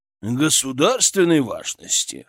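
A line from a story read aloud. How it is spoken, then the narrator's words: Snorting. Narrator (Russian): хмыкнул Шаповалов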